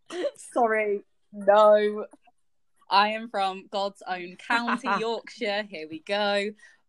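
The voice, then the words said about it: Northern English Yorkshire accent. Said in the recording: “I'm from Leeds. I'm Northern. ... Not that you can tell by my accent.”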